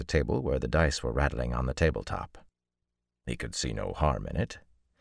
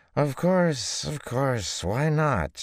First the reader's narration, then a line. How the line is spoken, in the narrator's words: She said, her speech slightly slurred